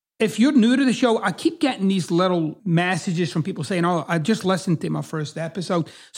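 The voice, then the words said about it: Strong regional accent. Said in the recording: “bringing you the best in fucked up accents since 1994”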